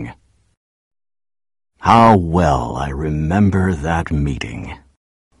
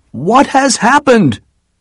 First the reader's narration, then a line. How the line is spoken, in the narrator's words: called out